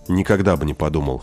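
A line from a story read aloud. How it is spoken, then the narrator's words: Amused snort. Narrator (Russian): хмыкнул Денис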